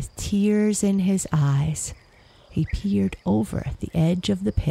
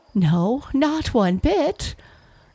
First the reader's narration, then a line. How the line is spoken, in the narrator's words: laughed the fox